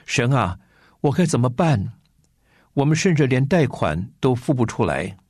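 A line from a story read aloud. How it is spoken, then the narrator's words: Tearful lament. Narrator (Chinese): 开始向神哭诉说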